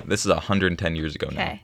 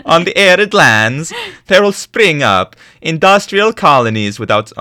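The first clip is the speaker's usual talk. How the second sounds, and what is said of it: Attempted Italian accent sounding Dutch. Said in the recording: “I don't think I can do an ... in an accent. ... It still sounds Dutch. Yeah. ... a little bit.”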